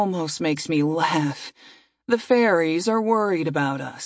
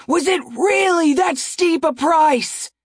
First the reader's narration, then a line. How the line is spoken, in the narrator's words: I shout up at them